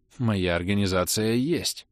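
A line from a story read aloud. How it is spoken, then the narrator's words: Plain. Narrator (Russian): сказал Арлекин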